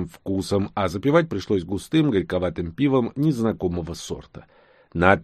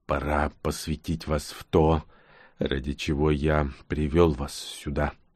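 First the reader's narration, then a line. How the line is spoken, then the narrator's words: Soft hushed announcement. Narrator (Russian): негромко сообщил Нкот, словно не желая тревожить установившуюся над лесной поляной глубокую ночную тишину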